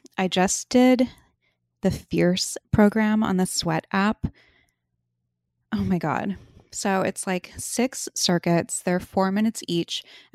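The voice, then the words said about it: Out of breath, panting speech. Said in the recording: “I feel like I'm really out of breath right now. ... I need to take a deep breath.”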